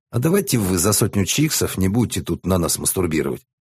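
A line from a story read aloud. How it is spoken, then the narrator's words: Businesslike tone. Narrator (Russian): деловым тоном предложил Бас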